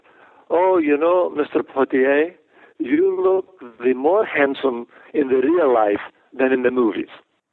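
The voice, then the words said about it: Imitated Greek accent. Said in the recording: “in her Greek accent”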